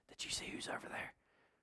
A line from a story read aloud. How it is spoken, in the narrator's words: you hear all the whispers, and you hear all the people saying